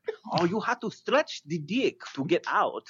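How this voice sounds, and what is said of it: Unidentifiable put-on accent. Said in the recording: “I have no idea what accent that was”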